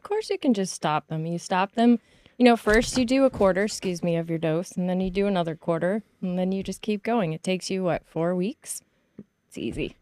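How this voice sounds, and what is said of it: Sarcastic delivery. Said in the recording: “she's being sarcastic. ... I am.”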